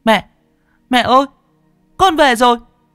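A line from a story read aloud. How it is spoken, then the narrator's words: Shout. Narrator (Vietnamese): Nó hét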